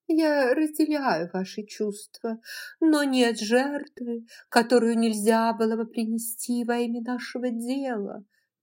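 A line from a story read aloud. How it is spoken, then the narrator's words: Tender, sing-song, dismissive. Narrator (Russian): нежно пропела миссис Элсинг, отметая все возражения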